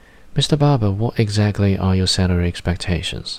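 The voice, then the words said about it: Sophisticated Australian accent. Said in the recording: “I imagine the recruiter as a sophisticated Aussie accent.”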